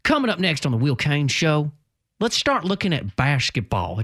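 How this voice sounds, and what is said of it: Put-on southern accent, drifting. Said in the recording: “I'm just giving him a southern accent ... I know that accent was going kind of a different direction”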